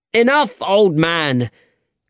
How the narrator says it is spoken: cried Alejandro angrily

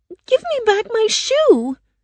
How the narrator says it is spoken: Dorothy cried

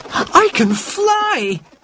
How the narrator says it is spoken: he cried

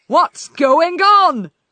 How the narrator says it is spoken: yelled the king

